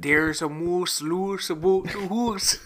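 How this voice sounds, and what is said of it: Put-on Canadian accent. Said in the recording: “my offensive accents ... my Canadian accent ... your offensive nationality accent”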